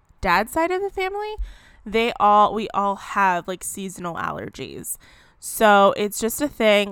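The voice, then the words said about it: Nasal, congested voice. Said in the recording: “why I sound a little nasally.”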